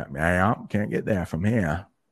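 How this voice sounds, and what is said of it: Put-on country-ish Maine accent. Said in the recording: “Mainers if somebody has an accent ... It sounds a bit more country-ish”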